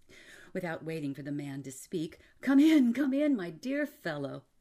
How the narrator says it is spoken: he exclaimed

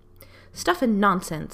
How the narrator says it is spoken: said Miss Lark crossly

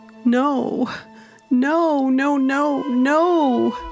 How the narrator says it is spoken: Fiona wailed at the suddenness of her sister's passing

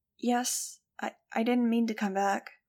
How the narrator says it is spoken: I said hesitantly

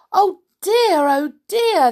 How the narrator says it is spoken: cried

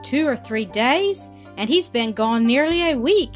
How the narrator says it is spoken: exclaimed Dale

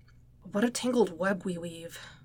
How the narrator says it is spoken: Peter murmured to himself

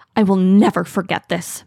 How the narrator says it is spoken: Mapleshade hisses

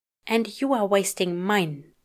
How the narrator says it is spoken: he grumbles under his breath

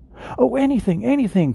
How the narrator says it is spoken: cried the little soul

